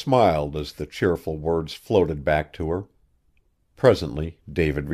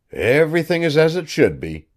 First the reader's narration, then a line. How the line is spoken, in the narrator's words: he chuckled